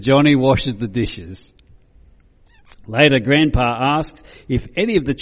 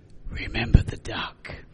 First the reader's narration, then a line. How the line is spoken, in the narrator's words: she whispers to him